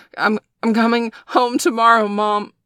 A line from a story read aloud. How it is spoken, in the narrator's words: Bailey gasped, his body giving out an almost violent shudder